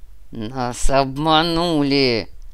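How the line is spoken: Giant's growl. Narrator (Russian): прорычал гигант

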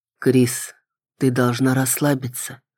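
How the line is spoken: Quiet. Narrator (Russian): тихо сказал

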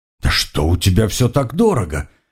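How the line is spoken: Slightly indignant question. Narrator (Russian): немного возмущенно спросил он

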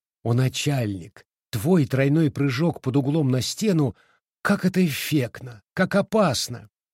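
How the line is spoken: Tender bark. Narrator (Russian): она нежно пролаяла

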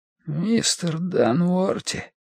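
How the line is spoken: Weak hoarse wheeze. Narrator (Russian): просипел он слабым голосом

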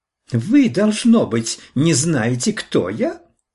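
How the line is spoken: Shrill, arrogant. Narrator (Russian): Все так же визгливо и заносчиво сказала она

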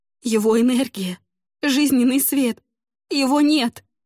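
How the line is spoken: Sobbing, halting explanation. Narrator (Russian): Всхлипывая, сбивчиво попыталась объяснить

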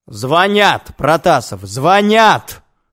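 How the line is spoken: Bark. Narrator (Russian): рявкнул я

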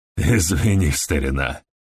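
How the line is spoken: Forced, strained. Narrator (Russian): выдавил из себя Стэнли

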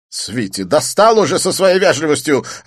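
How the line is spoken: Snapping retort. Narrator (Russian): огрызнулся Дидье

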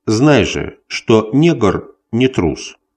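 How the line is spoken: Calm, casual. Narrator (Russian): начал он спокойно и небрежно

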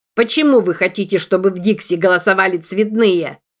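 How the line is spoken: Shouted out. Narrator (Russian): Выкрикнул

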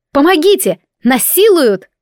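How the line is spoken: Shout. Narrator (Russian): выкрикнула я

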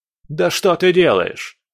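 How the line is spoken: Angry bark. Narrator (Russian): рявкнул второй с гневом

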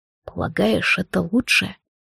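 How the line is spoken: Very quiet question. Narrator (Russian): тихо-тихо спросил Монтрос

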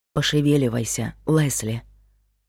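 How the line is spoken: Whisper. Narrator (Russian): шепотом сказал Майк

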